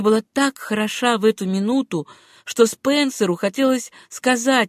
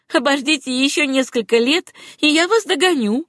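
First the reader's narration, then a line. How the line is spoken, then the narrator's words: Laughing reply. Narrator (Russian): Сюзанна расхохоталась и ответила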